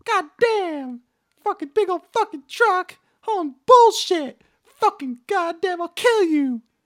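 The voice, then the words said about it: Imitates another person's voice. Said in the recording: “do my Jim Cornette impression”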